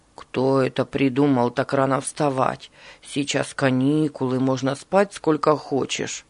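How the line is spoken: Grumbling. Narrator (Russian): бурчал Руслан

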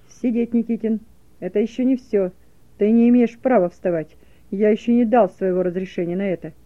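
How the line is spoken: Menacing shout. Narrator (Russian): грозно закричал он

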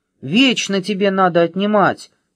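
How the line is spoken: Shouting chubby one. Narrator (Russian): кричал толстенький

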